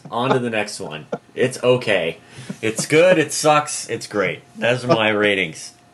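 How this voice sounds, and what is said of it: Sarcastic, joking delivery. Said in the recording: “I'm completely joking, being sarcastic.”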